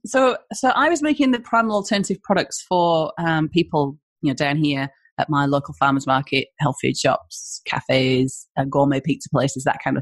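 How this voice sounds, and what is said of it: Northeast English accent. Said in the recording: “I'm from the northeast of England, in case you're wondering, because everyone's like, where's she from? ... with that weird accent ... this weird accent”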